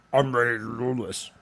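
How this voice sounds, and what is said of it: Deep, gruff imitated voice. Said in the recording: “was that a Vin Diesel impression? ... You sound more like Jigsaw. ... It's just deep and gruff.”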